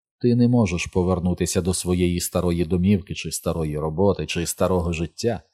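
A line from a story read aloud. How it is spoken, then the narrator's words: Almost gentle. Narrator (Ukrainian): сказав він Ричардові майже лагідно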